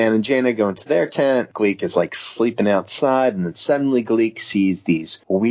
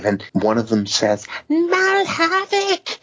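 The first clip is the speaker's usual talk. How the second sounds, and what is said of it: Good character voice of a troll. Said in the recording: “That's a really good impersonation.”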